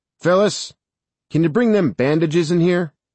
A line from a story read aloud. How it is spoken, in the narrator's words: called out